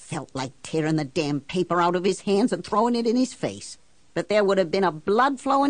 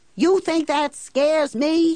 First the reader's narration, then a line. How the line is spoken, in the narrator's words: shouts